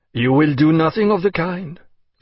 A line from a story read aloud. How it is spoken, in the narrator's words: said sharply